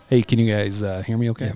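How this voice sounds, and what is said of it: Slow, smooth radio voice. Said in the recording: “Voice we've been missing right there... That's radio voice... Slow and sexy.”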